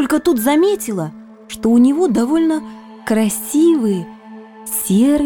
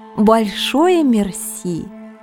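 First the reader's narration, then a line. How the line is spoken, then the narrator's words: Sarcastic. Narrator (Russian): язвительно произнесла я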